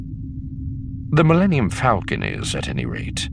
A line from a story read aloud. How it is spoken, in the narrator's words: he said grimly